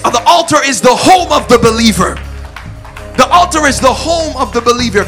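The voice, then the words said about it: Yelling passionately. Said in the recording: “I'm yelling, I'm going off because I'm passionate about it”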